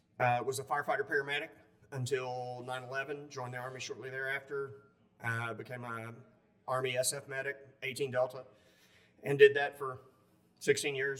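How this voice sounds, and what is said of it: Southern US accent. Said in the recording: “as you can't tell from the southern accent.”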